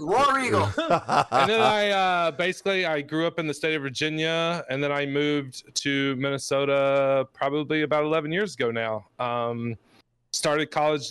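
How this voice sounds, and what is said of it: Slight Southern Alabama accent. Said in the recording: “Originally from Alabama. You can probably hear a little bit of accent in my voice.”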